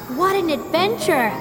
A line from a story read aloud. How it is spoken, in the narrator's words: He shouted with joy